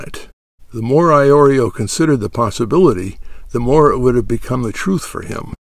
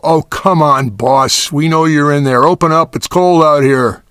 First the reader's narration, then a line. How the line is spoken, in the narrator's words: Johnsen yell